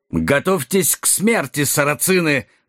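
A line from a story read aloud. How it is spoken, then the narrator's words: Menacing roar. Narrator (Russian): грозно взревел Нед Гамильтон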